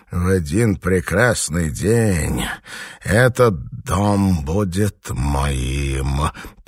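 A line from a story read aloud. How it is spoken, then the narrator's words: Hissed. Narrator (Russian): прошипел Квиллан Горнт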